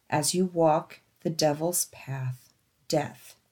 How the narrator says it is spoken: I heard a low, deep, menacing voice slowly whisper

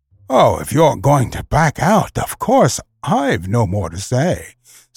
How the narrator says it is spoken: said the young seal with an ugly chuckle

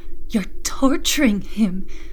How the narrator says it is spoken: She fell to her knees, sobbing

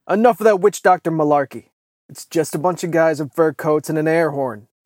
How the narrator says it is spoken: Mikhail, who racked the lever action on his rifle and shouted

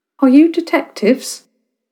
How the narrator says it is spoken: Her voice was frail and light, but it was definitely human

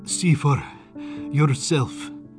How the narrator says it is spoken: panted back

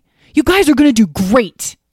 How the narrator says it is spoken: he exclaimed

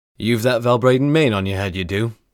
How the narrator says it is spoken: he chuckled

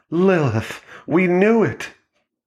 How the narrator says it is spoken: Connie, the realtor, her voice both desperate and elated, like she was being rescued from the bottom of a well

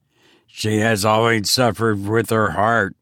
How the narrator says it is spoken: she muttered

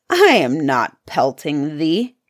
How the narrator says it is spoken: answered the first, growling

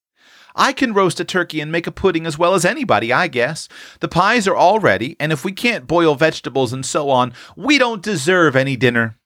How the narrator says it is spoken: cried Tilly, burning to distinguish herself and bound to enjoy to the utmost her brief authority

